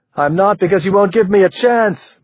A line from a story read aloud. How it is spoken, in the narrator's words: Marie shouted